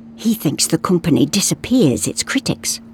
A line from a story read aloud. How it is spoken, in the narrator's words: whispered Sven